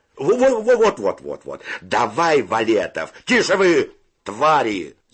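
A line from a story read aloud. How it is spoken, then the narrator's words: Shout. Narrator (Russian): закричал Федя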